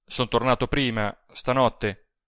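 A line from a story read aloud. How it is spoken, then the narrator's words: Rough reply. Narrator (Italian): rispose con tono ruvido il Serra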